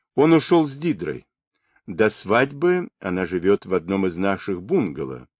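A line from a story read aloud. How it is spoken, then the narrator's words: Plain. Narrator (Russian): сказала миссис Радфорд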